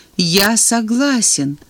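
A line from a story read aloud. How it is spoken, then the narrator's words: Plain. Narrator (Russian): ответил бывший правитель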